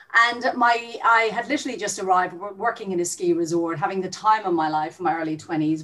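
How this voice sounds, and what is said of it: Irish accent. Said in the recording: “as you can hear from my accent, I'm not Australian. I was Irish born”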